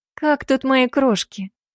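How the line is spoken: Affectionate question. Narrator (Russian): ласково спросила я

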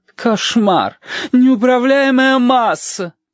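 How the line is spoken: Groaning. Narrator (Russian): простонала Маргарита Митрофановна

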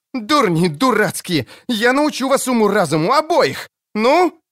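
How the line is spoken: Even louder shout. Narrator (Russian): крикнула она еще громче

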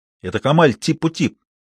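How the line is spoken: Exclaiming. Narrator (Russian): воскликнул Тарик

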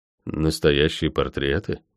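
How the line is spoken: Mumbling. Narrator (Russian): пробормотал я

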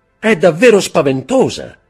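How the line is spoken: Shouted. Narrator (Italian): gridò la signora di Villefort

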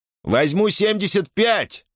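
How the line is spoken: Shout. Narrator (Russian): крикнул Хэррогейт

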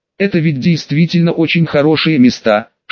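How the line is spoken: Whisper. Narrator (Russian): шепнул я

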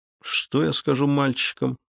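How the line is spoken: Muttered. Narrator (Russian): пробормотал Зуга

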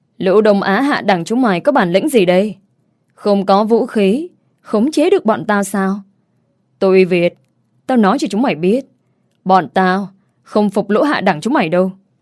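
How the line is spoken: Loud shout. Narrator (Vietnamese): tên cầm đầu hét to

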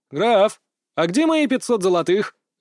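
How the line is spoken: Barked into ear. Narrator (Russian): гаркнул я со спины ему в ухо

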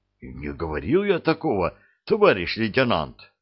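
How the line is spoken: Frightened. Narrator (Russian): испуганно помотал головой кожухарь

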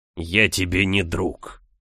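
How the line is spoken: Growl. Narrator (Russian): прорычал герцог

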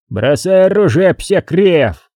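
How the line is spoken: Beaver roaring in Polish. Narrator (Russian): взревел бобер по-польски

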